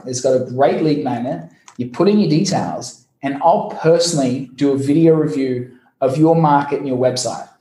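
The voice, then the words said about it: Noticeable foreign accent. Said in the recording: “my funny accent”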